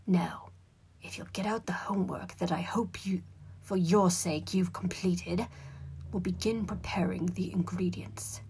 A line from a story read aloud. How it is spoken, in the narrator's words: growled Professor Snape from the front of the room